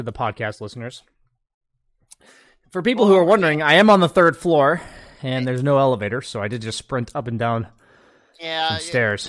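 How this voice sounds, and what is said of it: Out of breath. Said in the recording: “You were sounding a little out of breath there”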